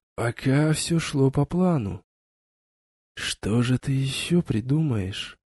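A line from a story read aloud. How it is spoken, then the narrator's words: Whisper. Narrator (Russian): прошептал Вейс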